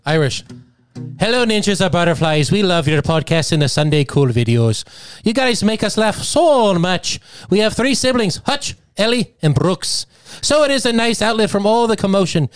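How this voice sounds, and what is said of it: Put-on Irish accent. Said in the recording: “read in an accent of your choice ... give me an accent ... Irish.”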